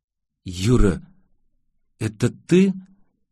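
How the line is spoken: Hesitant mumble. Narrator (Russian): Неуверенно пробормотала Изабель

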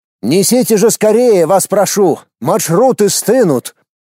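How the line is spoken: Shout. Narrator (Russian): прокричал директор

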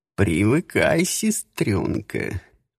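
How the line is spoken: Slightly hoarse drawl. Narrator (Russian): протянул кот чуть хриплым голосом

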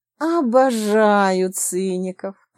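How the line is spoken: Lustful predatory voice. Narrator (Russian): плотоядным голосом заявила Зоя

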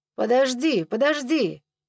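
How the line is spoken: Shouted. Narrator (Russian): закричал Айко

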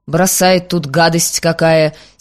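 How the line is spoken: Angry grumbling. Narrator (Russian): с сердцем проворчал

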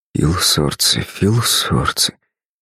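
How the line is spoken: Barely audible whisper. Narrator (Russian): едва шевеля губами, периодически шептал он

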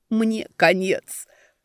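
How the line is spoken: Groan. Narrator (Russian): простонал котяра

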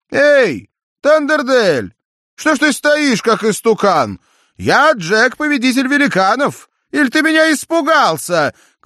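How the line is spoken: Shouting. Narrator (Russian): крикнул Джек

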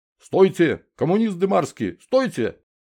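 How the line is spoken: Shouting like in battle. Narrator (Russian): Адан Борисович, как во время боя, закричал

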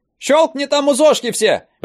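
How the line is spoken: Shouting. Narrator (Russian): прокричала она

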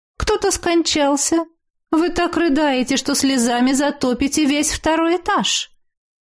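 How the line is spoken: Calm, matter-of-fact question. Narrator (Russian): Спокойным и будничным тоном осведомилась моя тетя

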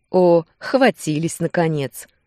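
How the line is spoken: Laughing, mischievous. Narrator (Russian): рассмеялся Руслан

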